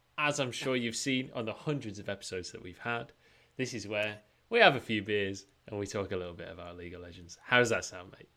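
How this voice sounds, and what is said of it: Put-on English pub accent. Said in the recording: “That was the most pub accent Munchables that we've ever had. And you really brought yourself down to old England Munchables there.”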